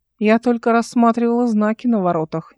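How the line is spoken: Displeased tone. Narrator (Russian): недовольным тоном сказала она

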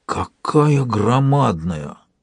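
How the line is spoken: Awed exhale. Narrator (Russian): благоговейно выдохнул Суркор

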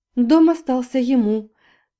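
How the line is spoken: Laughing. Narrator (Russian): сквозь смех подтвердила Полина

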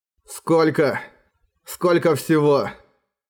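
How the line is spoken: Hoarse question. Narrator (Russian): Хрипло спросил он у Харауда

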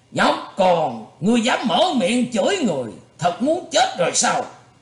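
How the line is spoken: Angry shout. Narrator (Vietnamese): Thạch Đại Sư tức giận thét lên

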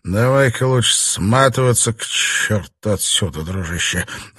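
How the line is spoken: Terrified mutter. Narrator (Russian): в ужасе пробормотал он

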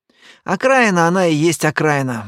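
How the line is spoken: Sighing. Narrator (Russian): вздохнул я

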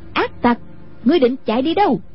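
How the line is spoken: Loud shout. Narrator (Vietnamese): quát lớn

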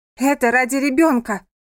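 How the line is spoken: Shouting. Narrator (Russian): крикнула она

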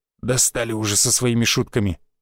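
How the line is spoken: Grunted. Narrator (Russian): буркнул рыжий

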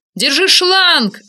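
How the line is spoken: Yelling. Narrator (Russian): орал мне Ник

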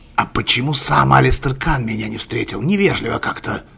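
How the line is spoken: Displeased grumble. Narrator (Russian): Недовольно буркнул мистер Сен

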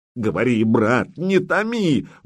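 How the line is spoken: Exclaimed. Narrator (Russian): воскликнул Претич

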